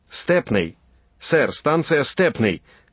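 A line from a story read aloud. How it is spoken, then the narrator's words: Cabman shouting from above. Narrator (Russian): крикнул сверху извозчик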